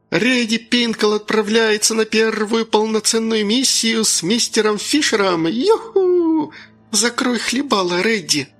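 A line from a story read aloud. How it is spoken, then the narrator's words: Angry squeak. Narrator (Russian): злобно пропищал я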